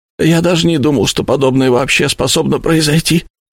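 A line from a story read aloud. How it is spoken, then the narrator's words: Broken voice. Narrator (Russian): закончил он надломленным голосом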